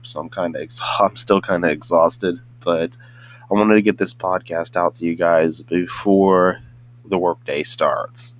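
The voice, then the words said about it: Hoarse, just-woken-up voice. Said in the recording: “Don't mind the sound of my voice because I'm a little bit hoarse because of, you know, just waking up”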